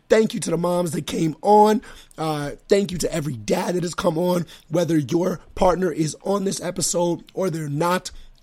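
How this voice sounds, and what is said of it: Hoarse, strained voice. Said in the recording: “my voice is shot”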